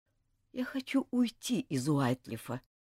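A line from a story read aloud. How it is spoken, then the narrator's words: Quiet. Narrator (Russian): сказал тихо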